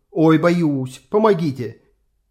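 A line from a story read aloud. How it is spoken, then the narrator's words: Quiet shout. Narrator (Russian): крикнул он, как можно тише крикнул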